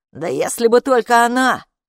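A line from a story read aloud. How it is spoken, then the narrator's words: Scoffing snort. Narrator (Russian): хмыкнул Каппо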